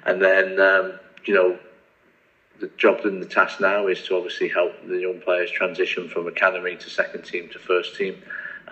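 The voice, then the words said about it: English accent, not American. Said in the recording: “people will be able to know from your accent that you're not originally from America ... you're from Nottingham”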